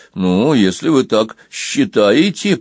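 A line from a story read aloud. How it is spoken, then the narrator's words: Muttered. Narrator (Russian): пробормотал Банкан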